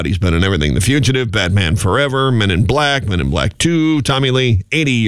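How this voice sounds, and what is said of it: Usual voice. Nothing is said of it.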